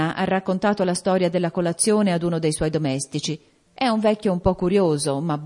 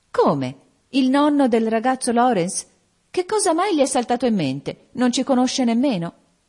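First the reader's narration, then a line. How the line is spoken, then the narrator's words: Exclaimed. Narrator (Italian): esclamò Meg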